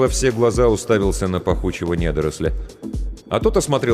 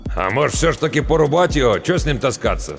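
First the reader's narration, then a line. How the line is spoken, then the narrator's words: Doubtful grunt, older man. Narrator (Russian): с сомнением хмыкнул тот, что постарше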